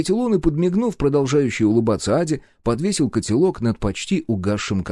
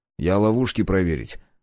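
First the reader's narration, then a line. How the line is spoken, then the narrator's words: Grumbled. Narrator (Russian): буркнул я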